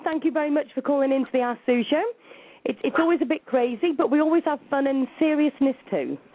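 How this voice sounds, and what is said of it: Speaks with a noticeable accent. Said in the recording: “I love your accent. I've been listening to you for a few minutes now, and I can listen to you talk all night long.”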